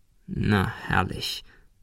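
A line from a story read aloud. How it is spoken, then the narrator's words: Contemptuous hiss. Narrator (German): fauchte er abschätzig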